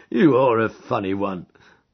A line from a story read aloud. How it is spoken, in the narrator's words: chuckled the inspector